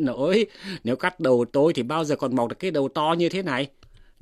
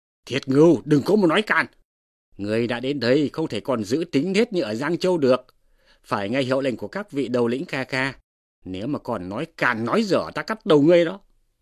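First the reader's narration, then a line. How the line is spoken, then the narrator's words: Hasty shout. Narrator (Vietnamese): Đới Tôn vội quát lên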